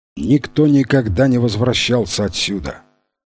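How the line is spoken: Solemn tone. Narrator (Russian): тем же торжественным тоном продолжал Торрес

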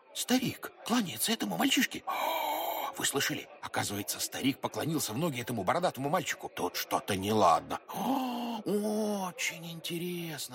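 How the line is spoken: Crowd whispering. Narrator (Russian): По толпе пробежал шепот

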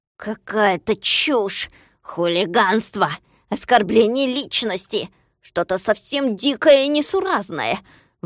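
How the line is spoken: Grumbling. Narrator (Russian): ворчал Скуперфильд

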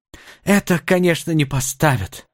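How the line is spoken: Sighing. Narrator (Russian): вновь вздохнул индеец

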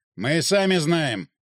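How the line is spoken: Snapping retort. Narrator (Russian): огрызнулся лейтенант

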